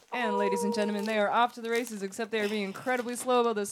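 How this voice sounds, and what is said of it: Announcer-style radio voice. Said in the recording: “doing a radio voice”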